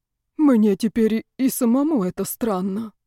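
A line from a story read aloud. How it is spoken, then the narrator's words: Sighing. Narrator (Russian): вздохнул Яков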